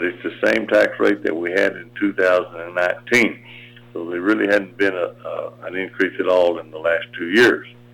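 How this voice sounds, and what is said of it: Hoarse, worn-out voice. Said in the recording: “I lost my voice”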